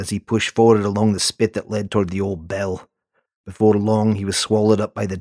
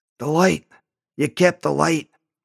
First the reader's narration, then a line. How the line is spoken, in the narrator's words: His voice was a rasp